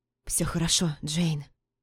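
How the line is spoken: Familiar tender whisper. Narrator (Russian): прошептал знакомый, и сейчас такой родной голос

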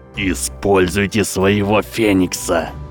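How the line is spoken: Growled. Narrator (Russian): прорычал профессор Квиррел

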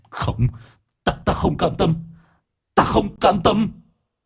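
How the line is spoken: Hissing shriek. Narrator (Vietnamese): Nó rít lên

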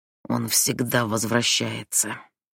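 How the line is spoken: Grumbling. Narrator (Russian): проворчала

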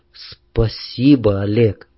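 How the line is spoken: Quiet, after long pause. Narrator (Russian): Нюшка довольно долго молчала, потом тихо сказала

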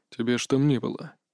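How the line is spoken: Quiet remark. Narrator (Russian): тихо заметил Иван

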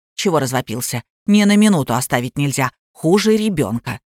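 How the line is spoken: Displeased deep woman's voice. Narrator (Russian): похожая на акулу тетка и недовольно пробасила

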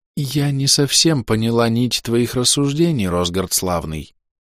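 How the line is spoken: Sighed. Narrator (Russian): вздохнула госпожа Мизрал

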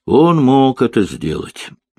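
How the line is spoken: Thoughtful. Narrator (Russian): задумчиво произнесла Хеверс

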